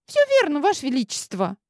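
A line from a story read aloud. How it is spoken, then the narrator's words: Squeak. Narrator (Russian): пискнула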